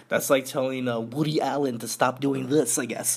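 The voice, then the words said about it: Poor impression of another person's voice. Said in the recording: “That was a horrible impersonation.”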